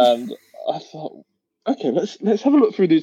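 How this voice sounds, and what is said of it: Usual voice. Nothing is said of it.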